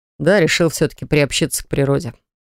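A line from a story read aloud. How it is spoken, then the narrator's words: Calm reply. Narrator (Russian): спокойно отвечает Марк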